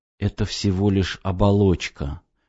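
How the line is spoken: Sad whisper. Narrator (Russian): прошептал я, потому что теперь мне стало совсем грустно

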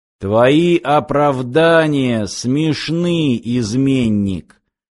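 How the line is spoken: Creaky rasp. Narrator (Russian): проскрипел мутант, сидящий слева

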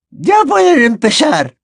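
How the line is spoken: Shrill hysterical shout. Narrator (Spanish): gritó la profesora Trelawney con una voz chillona y un tanto histérica

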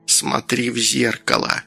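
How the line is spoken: Grandmother's whisper. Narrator (Russian): прошептала бабуля

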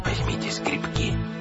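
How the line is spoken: Whisper. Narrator (Russian): шепнул детям

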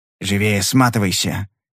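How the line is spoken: Hiss suppressing laughter. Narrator (Russian): прошипел, боясь не выдержать и рассмеяться

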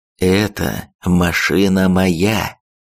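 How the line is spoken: Slow calm emphatic. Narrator (Russian): проговорил медленно, спокойно, но с нажимом

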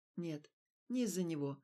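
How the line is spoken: Calm reply. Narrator (Russian): ответил Стас спокойно

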